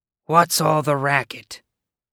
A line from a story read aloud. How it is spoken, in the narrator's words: she rasped